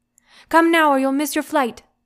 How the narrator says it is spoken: Auntie shouts

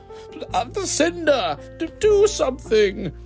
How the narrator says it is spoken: whimpered the king

